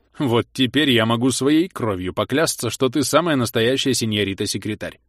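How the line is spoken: Displeased, commanding. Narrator (Russian): Недовольно хмыкнул он и приказал

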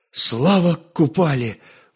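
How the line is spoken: Exhaled. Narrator (Russian): выдохнул Святослав

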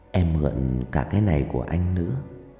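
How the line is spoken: Whisper. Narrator (Vietnamese): Trang thì thầm

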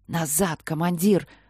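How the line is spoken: Hiss from behind. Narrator (Russian): зашипел сзади сержант Кеттон

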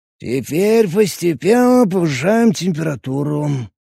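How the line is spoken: Drawled. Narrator (Russian): протянул он

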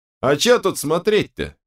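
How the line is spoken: Short laugh. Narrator (Russian): хохотнул Берс

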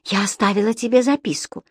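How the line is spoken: Barely audible. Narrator (Russian): едва слышно сказала Энсли

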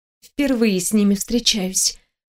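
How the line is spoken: Whisper. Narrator (Russian): прошептала я

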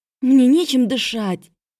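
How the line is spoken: Hoarse voice. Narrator (Russian): раздалось сиплое

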